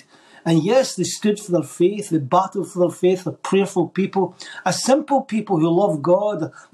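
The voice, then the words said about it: Scottish accent. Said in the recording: “hearing a Scottish accent here, just in case some of the viewers think, is that guy Irish? This is a Scottish accent.”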